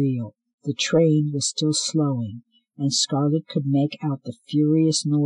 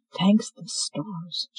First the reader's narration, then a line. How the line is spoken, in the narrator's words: she whispered